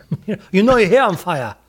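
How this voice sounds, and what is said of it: Mock Chinese accent. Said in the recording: “I just did an accent... racist Chinese impressions”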